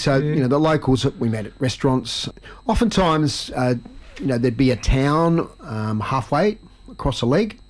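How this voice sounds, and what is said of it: Australian accent. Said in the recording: “They picked up your accent fairly early. However, some were confused whether you were Australian or New Zealand ... you declared you were Australian”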